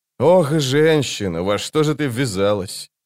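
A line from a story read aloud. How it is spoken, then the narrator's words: Sighing. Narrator (Russian): Она вздохнула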